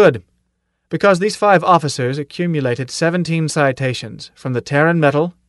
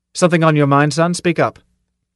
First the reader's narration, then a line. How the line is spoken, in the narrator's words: said sharply